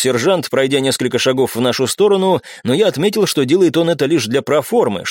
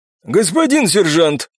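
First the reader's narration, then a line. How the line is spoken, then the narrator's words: Hoarse voice from ranks. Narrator (Russian): хрипнул кто-то из строя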